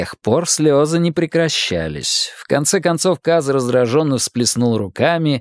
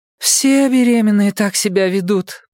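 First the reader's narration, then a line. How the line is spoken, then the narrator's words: Moaning. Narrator (Russian): простонала Нина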